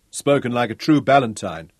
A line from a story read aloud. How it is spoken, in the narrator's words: Ralph laughed